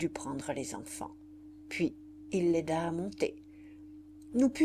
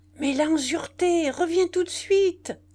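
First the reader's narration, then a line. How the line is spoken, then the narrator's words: Shout. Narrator (French): criai-je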